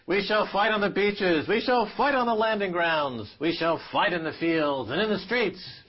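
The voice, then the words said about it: American accent. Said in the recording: “in an American accent. It's quite good.”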